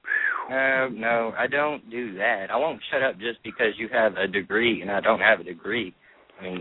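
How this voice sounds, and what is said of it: Slight Eastern Kentucky twang. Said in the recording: “I hear a little Eastern Kentucky twang going on in your voice.”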